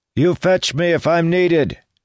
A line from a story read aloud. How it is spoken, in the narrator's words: he yelled to Paraith